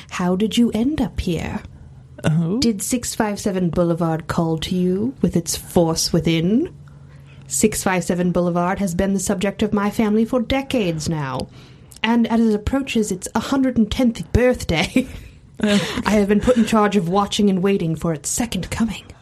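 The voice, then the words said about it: Creepy voice. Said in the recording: “do my best creepy voice”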